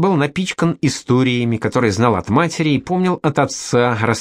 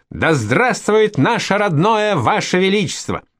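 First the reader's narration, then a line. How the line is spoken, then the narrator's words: Shout. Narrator (Russian): А он выкрикнул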